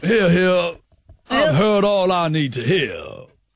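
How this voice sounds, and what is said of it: Detective character voice. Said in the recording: “you sound like a detective character.”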